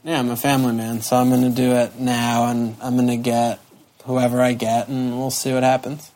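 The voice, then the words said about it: Sad, downcast tone. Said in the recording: “You sound so sad.”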